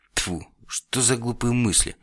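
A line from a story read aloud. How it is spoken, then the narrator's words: Old man, suddenly quiet. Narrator (Russian): Старик неожиданно тихо сказал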